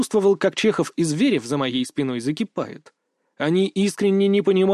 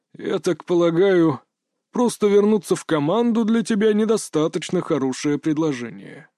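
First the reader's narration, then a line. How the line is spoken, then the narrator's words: Calm remark. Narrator (Russian): спокойно заметил Кощеев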